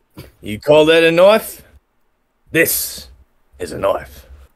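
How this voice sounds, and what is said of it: Put-on Australian accent. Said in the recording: “I guess it is an Australian accent this week ... I'm all into the terrible accents ... This isn't terrible.”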